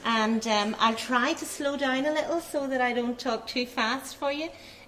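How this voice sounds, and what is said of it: Irish accent. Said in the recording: “in Ireland ... get the hang of my accent”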